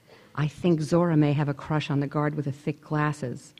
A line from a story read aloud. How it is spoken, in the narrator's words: she said as she whispered into Leonie's cot